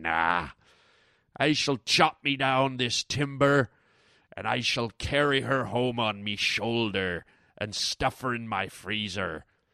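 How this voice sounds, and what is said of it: Pirate character voice. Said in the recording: “why was I talking like a pirate?”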